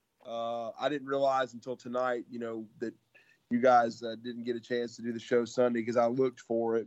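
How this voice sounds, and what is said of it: Slightly hoarse, strained voice. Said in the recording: “my voice is a little shot, but it's better.”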